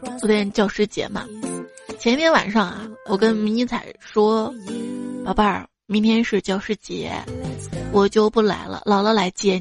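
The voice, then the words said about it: Hoarse, weak, breathy voice. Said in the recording (Chinese): “这两天感冒，嗓子哑的，气儿不足”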